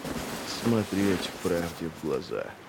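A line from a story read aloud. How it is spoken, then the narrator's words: Muttering. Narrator (Russian): пробормотал он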